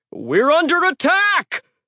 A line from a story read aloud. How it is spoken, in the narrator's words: someone yelled